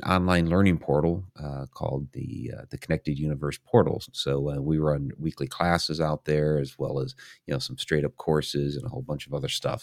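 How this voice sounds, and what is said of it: Scratchy, strained voice. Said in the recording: “my voice is a little scratchy here ... I'm trying to strengthen it back up after the weekend”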